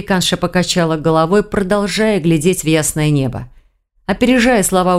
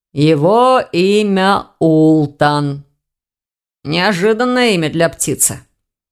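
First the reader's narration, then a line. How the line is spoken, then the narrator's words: Muffled young man's reply. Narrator (Russian): глухо отозвался молодой человек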